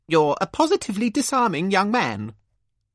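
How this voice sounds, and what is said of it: Posh voice. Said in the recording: “in a posh voice.”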